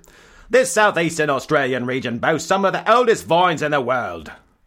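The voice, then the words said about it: Put-on Australian accent. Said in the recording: “I have to get my Australian accent into gear.”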